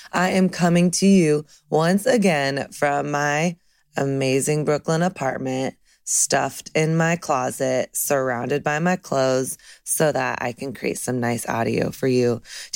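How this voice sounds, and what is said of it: Cracky, dry voice. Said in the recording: “my voice is cracky”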